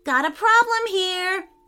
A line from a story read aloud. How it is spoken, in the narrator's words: shouted Harrison